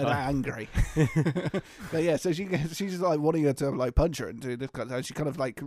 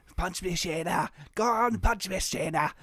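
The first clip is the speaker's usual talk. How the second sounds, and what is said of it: Deliberately poor Scottish accent. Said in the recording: “That's my terrible Scottish accent.”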